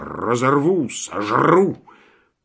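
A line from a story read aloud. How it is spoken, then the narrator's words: Snarling, snapping dog. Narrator (Russian): Пес щелкал зубами и рычал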